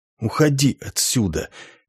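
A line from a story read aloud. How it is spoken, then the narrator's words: Whisper. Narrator (Russian): прошептал ямщик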